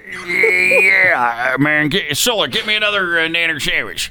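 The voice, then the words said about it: Impression of a celebrity singer's voice. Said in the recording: “Name this famous singer celebrity voice impersonated ... that's not the actual celebrity. Right. That's an impression.”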